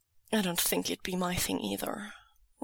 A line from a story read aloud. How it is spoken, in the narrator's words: Wei Wuxian confesses quietly back